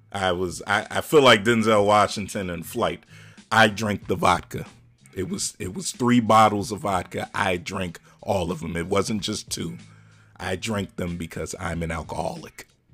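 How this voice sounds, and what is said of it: Denzel Washington impression. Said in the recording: “good Denzel impression”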